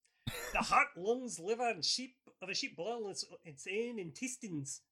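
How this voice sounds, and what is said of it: Attempted Scottish accent, sounds New Zealand. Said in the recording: “can you say that with a Scottish accent? ... Oh, I can't. ... I turned ... New Zealand”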